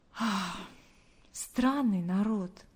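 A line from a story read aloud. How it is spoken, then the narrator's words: Silent inner sigh. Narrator (Russian): мысленно вздохнула она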